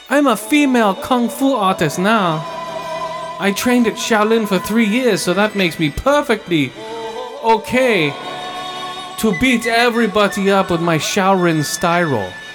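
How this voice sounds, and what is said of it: Put-on accent. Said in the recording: “talking in accent”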